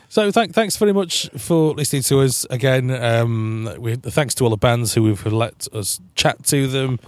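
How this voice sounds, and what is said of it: Tired, strained voice giving out. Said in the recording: “my voice is starting to give out now”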